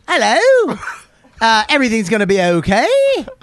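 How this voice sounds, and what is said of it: Put-on Australian accent, rising ending. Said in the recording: “the Australian accent is always upbeat at the end ... It always goes up at the end.”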